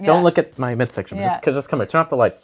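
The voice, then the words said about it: Impression of a woman's voice. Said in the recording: “His impression of a woman.”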